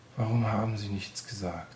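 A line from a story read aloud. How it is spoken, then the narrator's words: Tearful sigh. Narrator (German): seufzte unter Tränen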